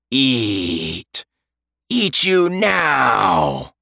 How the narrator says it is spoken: the creature growled

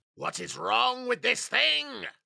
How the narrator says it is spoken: He shouted

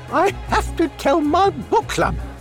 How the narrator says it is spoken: she exclaimed, and huffing and puffing

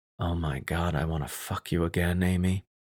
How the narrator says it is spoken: so I could whisper in her ear

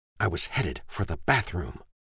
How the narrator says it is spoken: she says in an angry whisper

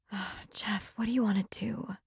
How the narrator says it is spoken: She asked breathlessly

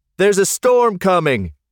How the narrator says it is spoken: Jeff called out to them

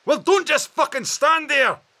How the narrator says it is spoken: he bellowed back over his shoulder as he plunged on into the woods

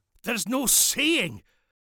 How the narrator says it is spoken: Duncan yelped

